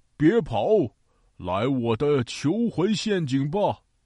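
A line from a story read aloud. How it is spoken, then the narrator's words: Shouting. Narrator (Chinese): 他对着陆鸦喊道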